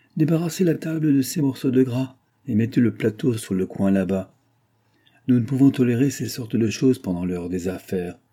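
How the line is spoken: Harsh commanding tone. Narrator (French): dit-il durement en reprenant le ton d'un maître

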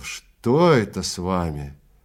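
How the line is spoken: Groaning. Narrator (Russian): Экельс застонал

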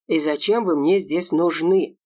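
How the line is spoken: Grumbling. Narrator (Russian): проворчал полковник

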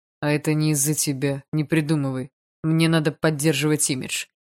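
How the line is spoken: Dismissive snort. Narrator (Russian): фыркнул Барс

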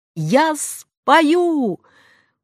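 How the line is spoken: Desperate shout. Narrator (Russian): выкрикнула я в отчаянии

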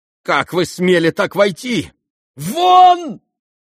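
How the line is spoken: Trembling, stammering shout. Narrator (Russian): кричал он, дрожа и даже едва выговаривая слова

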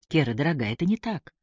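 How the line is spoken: Calm objection. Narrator (Russian): спокойно возразил Алан

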